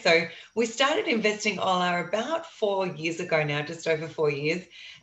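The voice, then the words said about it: Australian accent. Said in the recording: “can tell from my accent ... I am calling you from Australia”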